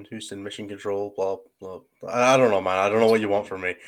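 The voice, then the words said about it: Scottish accent. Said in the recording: “I have an accent. ... With Scottish accents?”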